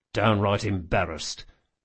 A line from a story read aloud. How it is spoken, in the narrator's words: muttered Locke